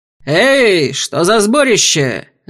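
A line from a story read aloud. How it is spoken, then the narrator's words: Barked by burly man. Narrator (Russian): рявкнул детина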